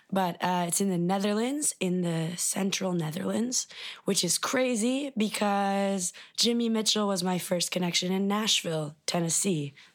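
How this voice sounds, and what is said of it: Raspy voice. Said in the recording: “I don't sound like myself ... raspy thing ... I can't carry a tune at the moment”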